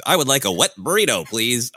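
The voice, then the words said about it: Loud Midwestern American accent. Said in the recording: “my loud Midwestern accent”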